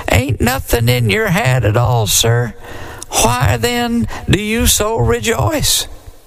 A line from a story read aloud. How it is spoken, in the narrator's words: said the deacon in a quivery little voice